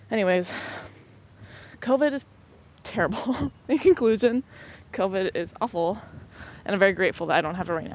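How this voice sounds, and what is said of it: Breathless voice with a cold. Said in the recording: “I'm out of breath ... I sound like a whiny baby because I have a freaking cold”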